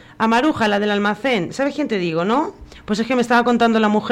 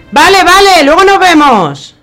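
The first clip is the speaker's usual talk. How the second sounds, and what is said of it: Shouting loudly. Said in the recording (Spanish): “¿A quién le estás gritando?”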